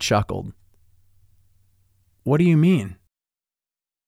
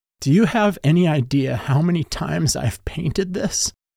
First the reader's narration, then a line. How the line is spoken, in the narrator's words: I pleaded through the wetness, feeling like I was going to suffocate